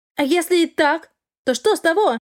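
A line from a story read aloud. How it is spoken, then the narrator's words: Snapping back. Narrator (Russian): огрызнулась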